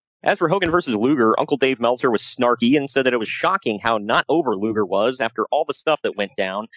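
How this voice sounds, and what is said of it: Usual voice. Nothing is said of it.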